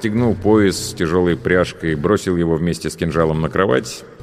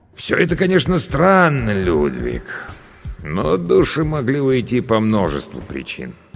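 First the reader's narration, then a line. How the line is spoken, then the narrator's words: Serious thoughtful drawl. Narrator (Russian): стал более серьезным, размышляя, протянул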